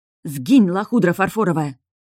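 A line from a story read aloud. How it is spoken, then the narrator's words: Muttered through teeth. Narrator (Russian): сквозь зубы пробормотала я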